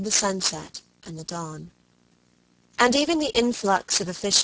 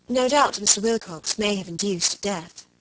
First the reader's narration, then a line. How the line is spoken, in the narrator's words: she said